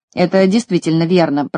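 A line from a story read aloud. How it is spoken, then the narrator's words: Grumbling. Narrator (Russian): проворчал Крабс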